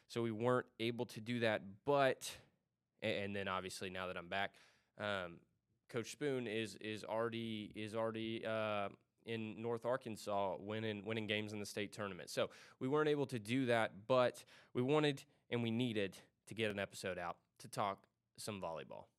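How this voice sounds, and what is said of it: Sick-sounding voice. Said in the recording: “as you may be able to tell by my voice, I was sick this past weekend”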